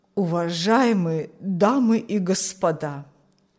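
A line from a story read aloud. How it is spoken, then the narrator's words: Old man's trembling voice. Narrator (Russian): начал старик дрожащим голосом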